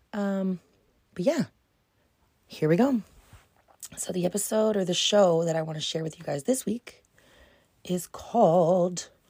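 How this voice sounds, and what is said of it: Strained, wonky voice from screaming. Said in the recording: “Sorry if my voice is a little... I went to a hockey game this weekend and I was screaming with the best of them ... why my voice might be a little wonky”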